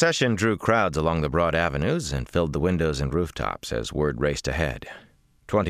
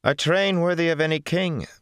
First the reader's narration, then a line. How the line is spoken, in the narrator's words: Mirana said loudly, to be heard